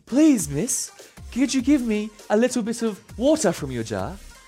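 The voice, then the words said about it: Put-on British accent. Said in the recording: “I don't know why it's a British accent”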